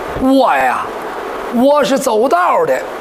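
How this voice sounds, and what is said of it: Hebei regional accent. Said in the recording (Chinese): “一说话是河北口音。”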